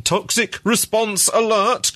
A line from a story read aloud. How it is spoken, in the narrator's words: cried the letters again